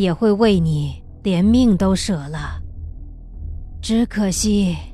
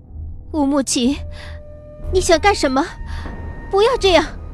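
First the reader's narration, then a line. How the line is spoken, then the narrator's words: Trembling voice. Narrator (Chinese): 我的声音有些颤抖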